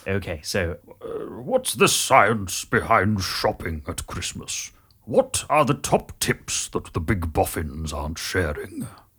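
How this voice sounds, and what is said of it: Grand, portentous wizard voice. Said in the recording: “a sort of Tolkien-esque sort of portentous delivery ... we'll just do a Gandalf ... read Aaron's tweet in Gandalf ... My Ian McKellen is rather well refined”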